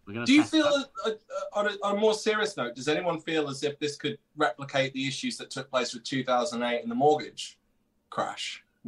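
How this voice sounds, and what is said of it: British accent. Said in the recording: “I've got a British accent.”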